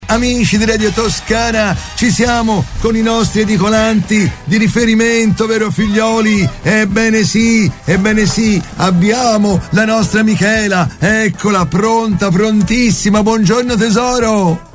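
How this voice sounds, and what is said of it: Loud, shouting radio delivery. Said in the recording (Italian): “puoi parlare un pochino più piano per piacere? ... io non ce la fo a non urlare ... Questo volume, quindi la rotella per piacere parla più piano.”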